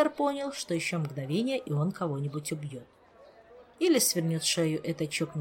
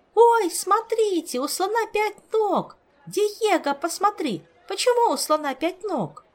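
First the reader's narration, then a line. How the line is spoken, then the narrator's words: Delighted yelling, very loud. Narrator (Russian): восторженно завопила на весь зоопарк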